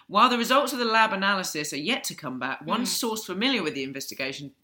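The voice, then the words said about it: Attempted Australian accent. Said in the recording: “That's the second time I've said that in an Australian accent.”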